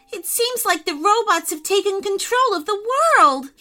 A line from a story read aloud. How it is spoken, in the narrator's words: he cried, running away as fast as he could